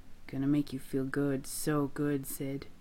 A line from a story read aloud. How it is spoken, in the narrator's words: Gino murmurs into the place on Sid's neck